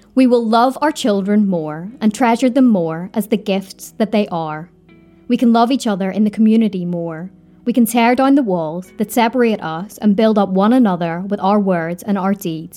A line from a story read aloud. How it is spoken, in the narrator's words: he said